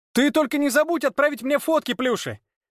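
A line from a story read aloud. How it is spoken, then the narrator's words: Shouting after someone. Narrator (Russian): Вдогонку Яру крикнул Игорь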